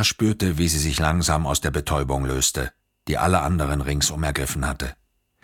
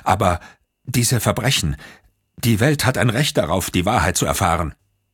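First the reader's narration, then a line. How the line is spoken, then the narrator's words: Stammering. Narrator (German): Sie stammelte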